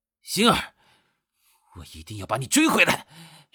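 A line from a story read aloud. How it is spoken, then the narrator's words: Drunken loud shout. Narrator (Chinese): 已经醉醺醺的陆枫…大声的喊道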